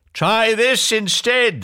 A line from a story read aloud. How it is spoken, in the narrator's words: yelled back